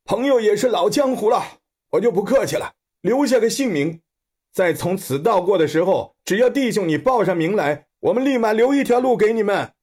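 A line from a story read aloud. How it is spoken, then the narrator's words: Bearded man shouting. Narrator (Chinese): 大胡子与他们喊着说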